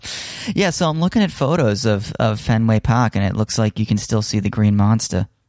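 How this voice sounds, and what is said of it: Put-on Boston accent. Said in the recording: “How's my Boston accent? Any good? Pretty good? ... Yeah, it's all right.”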